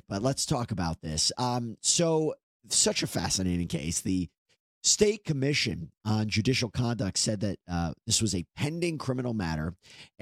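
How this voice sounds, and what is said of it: Hoarse, strained voice. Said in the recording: “I'm losing my voice, but I'm powering through it.”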